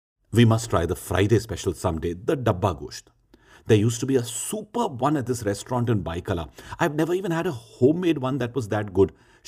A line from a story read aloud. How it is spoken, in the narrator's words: Shahid said excitedly